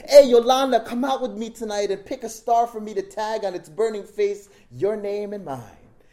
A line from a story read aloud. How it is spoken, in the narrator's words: Willie shook up and shouted